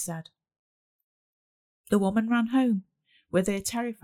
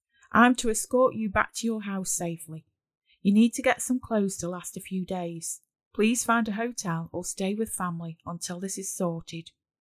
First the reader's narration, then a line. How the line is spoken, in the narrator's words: Dave said gravely